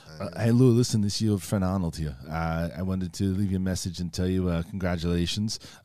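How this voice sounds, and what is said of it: Arnold Schwarzenegger impression. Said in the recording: “do an impression of Arnold”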